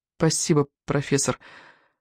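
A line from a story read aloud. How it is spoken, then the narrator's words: Mumble. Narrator (Russian): пробормотала она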